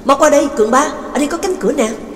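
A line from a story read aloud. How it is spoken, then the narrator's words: Loud call. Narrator (Vietnamese): giáo sư Vương Tân lớn tiếng gọi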